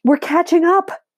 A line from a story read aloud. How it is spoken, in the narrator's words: I yell at Brand